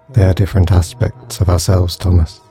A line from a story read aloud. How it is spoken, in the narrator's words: sighed the angel